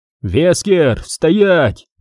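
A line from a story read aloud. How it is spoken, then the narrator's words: Shout. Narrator (Russian): крикнул Редфилд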